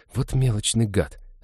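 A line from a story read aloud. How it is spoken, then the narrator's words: Grumble. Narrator (Russian): буркнул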